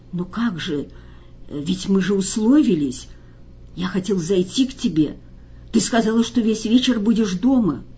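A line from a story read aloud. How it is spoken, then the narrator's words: Confused whisper. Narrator (Russian): Он зашептал растерянно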